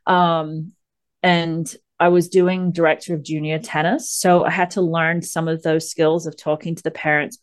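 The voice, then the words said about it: Mixed English and American Southern accent. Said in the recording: “the confused accent comes in: England, Florida, now Kentucky in some way.”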